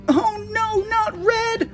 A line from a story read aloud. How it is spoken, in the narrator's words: screamed